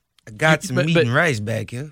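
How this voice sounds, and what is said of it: Unconvincing put-on Cajun accent. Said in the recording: “what you sound like right now is someone that's never been here that's trying to do a Cajun accent in a movie”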